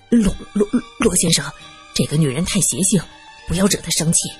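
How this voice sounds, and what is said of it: Quiet, hushed voice. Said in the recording (Chinese): “小声的说道”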